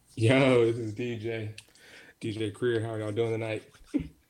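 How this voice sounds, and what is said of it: Deep put-on radio DJ voice. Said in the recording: “Radio voice, huh? ... He wasn't talking like that earlier. ... Pitch was high.”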